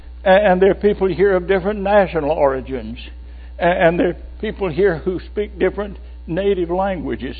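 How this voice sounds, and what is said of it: Southern American accent. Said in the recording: “I could say three words and they'd say, "What part of the South are you from?"”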